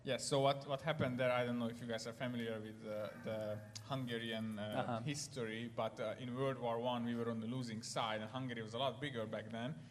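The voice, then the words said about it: Hungarian accent in English. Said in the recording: “I am Hungarian, and you will hear my accent very shortly.”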